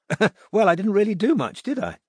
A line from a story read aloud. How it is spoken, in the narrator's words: said Judith, laughing